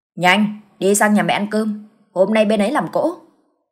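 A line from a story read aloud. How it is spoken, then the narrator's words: Bossy irritated snap. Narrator (Vietnamese): Hắn tiếp tục sùng giọng kẻ cả, gắt lên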